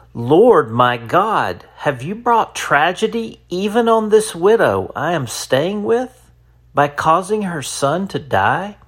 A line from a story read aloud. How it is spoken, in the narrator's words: he cried out to the Lord